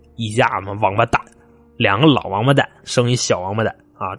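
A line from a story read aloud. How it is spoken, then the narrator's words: Grumbling mutter. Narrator (Chinese): 一边穿一边嘟囔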